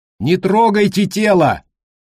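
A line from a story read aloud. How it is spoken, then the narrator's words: Shouted. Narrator (Russian): прокричал Колли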